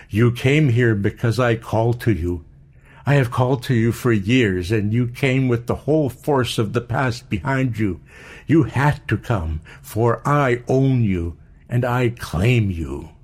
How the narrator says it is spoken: she cried with passion

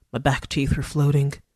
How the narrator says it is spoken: Goldie muttered

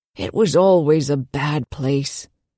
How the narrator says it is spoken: the old man said and lowered his voice to a conspiratorial whisper

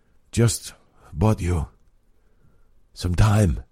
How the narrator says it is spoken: Robbie gasped

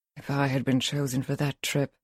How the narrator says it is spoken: she mutters

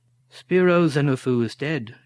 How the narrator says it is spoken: she stated flatly

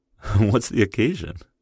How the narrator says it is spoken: I laughed

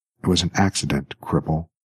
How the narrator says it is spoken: whispered the woman in a stricken voice

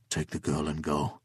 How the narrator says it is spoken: he said, his voice calm but ominous

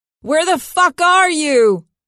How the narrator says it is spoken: shouts

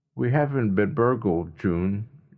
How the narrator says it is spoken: Jeff said evenly, though his look was just as wild as his hair

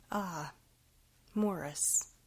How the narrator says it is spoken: his father began nervously

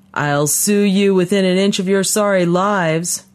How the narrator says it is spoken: her father was yelling

